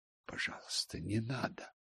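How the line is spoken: Very quiet plea. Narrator (Russian): Очень тихо попросила

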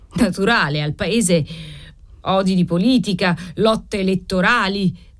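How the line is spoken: Chorused shout, choking anger. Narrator (Italian): gridarono in coro Colaneri e Trifari soffocando di collera

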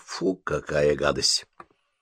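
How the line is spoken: Disgusted mutter. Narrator (Russian): Бен сморщил нос, пробормотав

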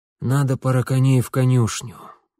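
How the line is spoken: Tired, breaking off. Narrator (Russian): устало начал отец и тут же оборвал сам себя

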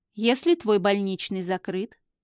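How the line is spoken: Calm, emotionless. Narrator (Russian): так же спокойно и бездушно отвечает он

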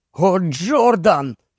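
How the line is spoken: Groaned. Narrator (Ukrainian): простогнав

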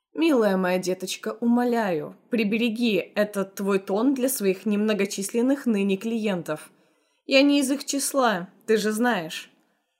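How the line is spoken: Condescendingly kind. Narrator (Russian): Мистер Кетсби, снисходительно доброжелательным тоном сказал

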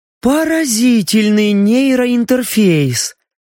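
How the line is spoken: Admiring breathless exclamation. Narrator (Russian): восхищенно выдохнула Мия

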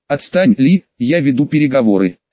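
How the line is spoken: Plain. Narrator (Russian): сказал Наруто

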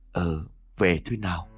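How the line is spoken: Replied with a soft smile. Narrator (Vietnamese): Mình khẽ nở nụ cười rồi đáp

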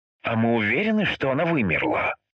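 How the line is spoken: Skeptical snort. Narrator (Russian): хмыкнул Тимур

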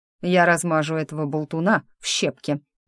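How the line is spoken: Growling. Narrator (Russian): рыкнул Диего

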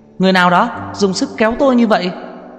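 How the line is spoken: Reporter's sudden scream. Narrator (Vietnamese): một ký giả kêu hét lên một tiếng

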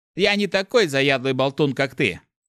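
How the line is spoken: Snapped. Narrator (Russian): огрызнулся Мефис

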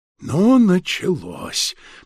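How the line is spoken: Grumbling old abbot. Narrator (Russian): проворчал настоятель

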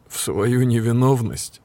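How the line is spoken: Laughing. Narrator (Russian): Ник рассмеялся

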